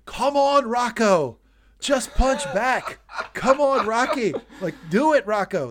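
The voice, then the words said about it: Screaming like a boxing corner coach. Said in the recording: “I'm screaming this ... You're you're doing Rocky three Apollo right now.”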